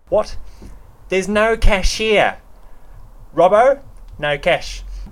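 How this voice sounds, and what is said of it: Put-on Australian accent. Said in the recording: “give us your best Australian accent”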